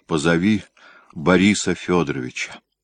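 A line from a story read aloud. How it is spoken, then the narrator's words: Heavy sigh, quiet. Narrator (Russian): Тяжело вздохнув, тихо сказал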